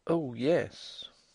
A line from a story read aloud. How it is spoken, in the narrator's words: Nelly timidly whispered